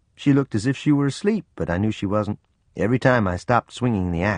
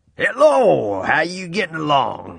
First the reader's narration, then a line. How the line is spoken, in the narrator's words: he boomed